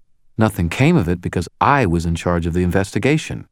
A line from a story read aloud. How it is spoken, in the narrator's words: Murphy corrected me, her tone slightly sharpening